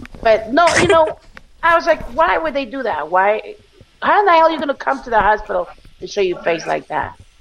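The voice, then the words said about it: Foreign accent. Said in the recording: “I'm foreigner, hello? You should know my accent by now.”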